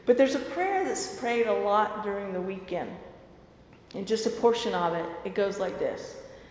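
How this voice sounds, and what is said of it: Southern American accent. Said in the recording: “with my southern accent”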